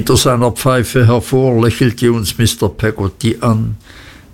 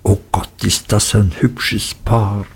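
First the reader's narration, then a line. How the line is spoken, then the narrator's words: Whispering. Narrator (German): zuflüsterten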